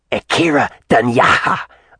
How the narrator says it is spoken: a female spat

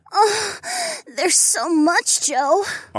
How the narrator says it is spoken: Ariana whimpered

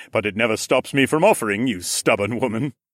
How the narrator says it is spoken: he chuckled in his deep voice

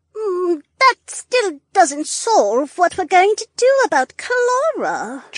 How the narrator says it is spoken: Josephine whimpered

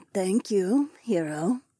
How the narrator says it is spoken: my wife murmured

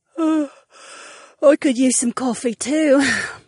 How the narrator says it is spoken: Princess Sienna yawned

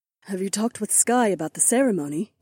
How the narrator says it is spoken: Aliona asked in a soft voice

